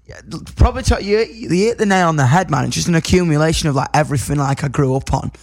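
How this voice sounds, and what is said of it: Yorkshire accent. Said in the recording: “I love your accent. Every time I hear your voice, I love it... Yorkshire.”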